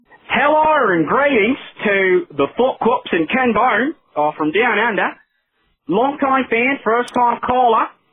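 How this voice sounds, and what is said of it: Put-on Australian accent. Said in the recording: “Could not keep the accent up there at the end ... That was a real Aussie.”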